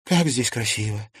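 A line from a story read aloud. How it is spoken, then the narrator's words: Breathless exhale. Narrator (Russian): выдохнула Лиза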